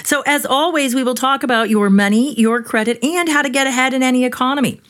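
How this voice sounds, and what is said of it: Mock radio announcer voice. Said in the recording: “I was trying to use my best announcer voice, but it didn't quite.”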